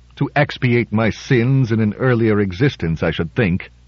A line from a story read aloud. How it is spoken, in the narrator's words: in a low, harsh voice, he said